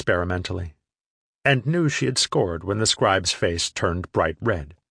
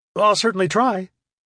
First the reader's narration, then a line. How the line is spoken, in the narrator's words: replied eagerly, pleased to get off the hook so easily